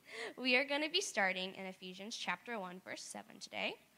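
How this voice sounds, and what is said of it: Raspy, partly lost voice. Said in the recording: “my voice is a little raspy this morning ... have lost our voice due to screaming”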